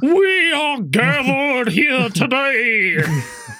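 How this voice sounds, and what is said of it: Paul Bearer impression. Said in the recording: “he also does like a really good Paul Bearer impression.”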